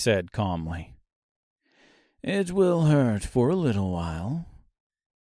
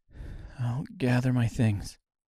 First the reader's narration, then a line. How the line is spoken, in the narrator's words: she said quietly